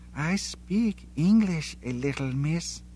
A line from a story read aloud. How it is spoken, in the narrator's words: she whispered at last